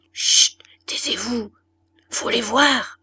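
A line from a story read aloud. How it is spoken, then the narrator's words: Bawdy laughing murmur. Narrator (French): murmura Levaque avec un rire de paillardise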